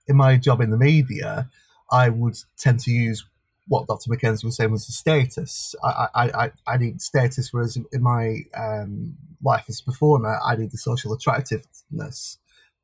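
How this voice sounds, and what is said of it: Old-school Blackburn Lancashire accent. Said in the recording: “It's an old school Blackburn accent, what I've got... the Lancashire accent”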